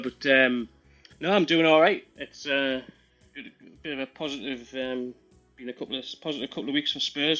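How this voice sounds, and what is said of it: Regional English accent. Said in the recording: “That's an interesting accent I hear there... when people hear the accent, they sort of look totally puzzled... you don't actually support Newcastle”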